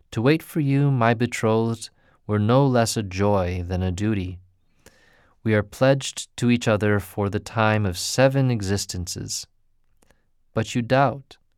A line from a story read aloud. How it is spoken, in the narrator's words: Eager to soothe her dying moments, he answered tenderly